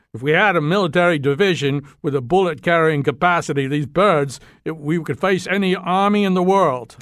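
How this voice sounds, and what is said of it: Poor put-on Australian accent. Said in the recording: “That wasn't a very good Australian accent.”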